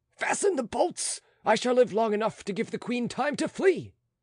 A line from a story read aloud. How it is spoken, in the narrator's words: he ... shouting